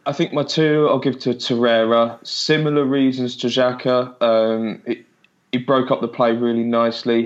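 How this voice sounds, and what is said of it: Sore-throated voice, coughing. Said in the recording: “I'm coughing, I've got a sore throat.”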